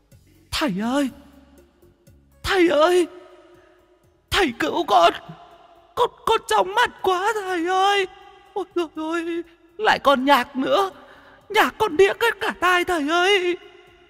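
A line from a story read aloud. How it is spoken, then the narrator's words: Whimpering, dazed ghost. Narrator (Vietnamese): Con vong bấy giờ bị ánh đèn laser chiếu cho té le, nhìn ra cậu mếu máo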